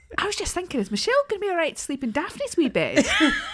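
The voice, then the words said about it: Put-on accent imitating her mum. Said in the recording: “You're not going to do the accent?”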